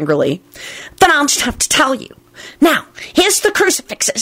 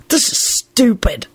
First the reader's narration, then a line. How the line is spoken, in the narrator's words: Alex mumbled sulkily